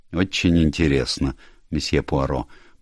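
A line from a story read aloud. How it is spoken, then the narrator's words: Bored mutter. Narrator (Russian): пробормотал Рейнер со скучающим видом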